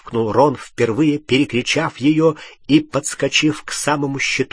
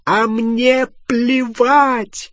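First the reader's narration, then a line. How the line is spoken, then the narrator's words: Shrieking yell. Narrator (Russian): завопила Гермиона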